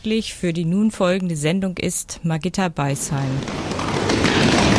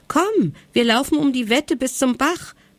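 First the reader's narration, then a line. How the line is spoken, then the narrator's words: Exuberant call. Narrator (German): rief er übermütig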